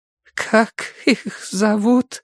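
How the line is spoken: Trembling whisper. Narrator (Russian): дрожащим голосом прошептала Виолет

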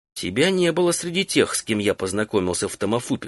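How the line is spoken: Plain. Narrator (Russian): сказал Тинат

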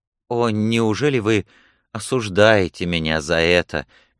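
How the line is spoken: Soft, guilty question. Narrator (Russian): мягко и виновато спросил принц

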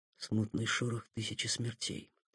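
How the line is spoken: Whisper. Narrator (Russian): прошептал в ответ Сухов

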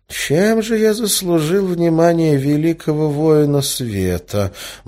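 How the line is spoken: Muttering. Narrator (Russian): бормотал Эразм

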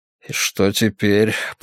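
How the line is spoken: Muttered. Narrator (Russian): пробормотал Варгас

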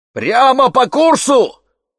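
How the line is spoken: Old man's shout. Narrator (Russian): выкрикнул дед

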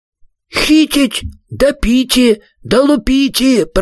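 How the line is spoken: Joyful shout, group. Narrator (Russian): прокричали радостно синие человечки

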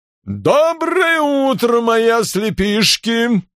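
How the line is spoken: Booming. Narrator (Russian): прогремел Ковен

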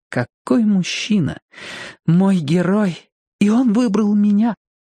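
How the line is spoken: Sighing. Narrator (Russian): Латифа вздохнула

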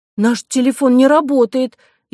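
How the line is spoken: Frightened girl exclaiming. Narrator (Russian): испуганно воскликнула девочка

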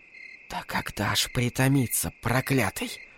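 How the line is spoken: Whisper. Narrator (Russian): прошептала пирожка

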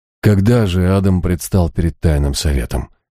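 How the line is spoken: Gentle. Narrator (Russian): Я мягко попытался вернуть Дэниела Кайта к нашему делу

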